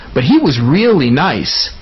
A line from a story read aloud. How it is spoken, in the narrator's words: Colton said happily